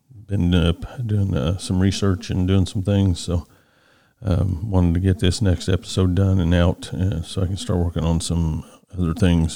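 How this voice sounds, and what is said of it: Tired voice. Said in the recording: “my voice is just a little tired.”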